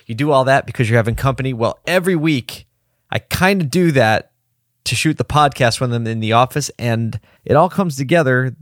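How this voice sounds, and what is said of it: Hoarse, low-energy voice. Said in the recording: “my voice is hoarse and a little low on the energy”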